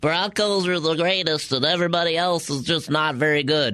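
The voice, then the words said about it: Imitates another person's voice. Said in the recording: “that impression of me ... That impression is spot on”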